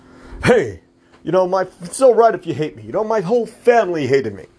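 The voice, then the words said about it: Imitates another person's voice. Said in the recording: “my best Rodney Dangerfield impression.”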